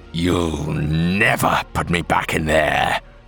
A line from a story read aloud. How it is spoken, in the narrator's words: he growled